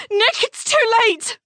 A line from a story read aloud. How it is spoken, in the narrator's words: Siowa cried out